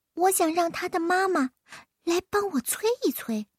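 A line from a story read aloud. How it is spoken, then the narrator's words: Whisper. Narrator (Chinese): 云儿凑到尹老耳边小声说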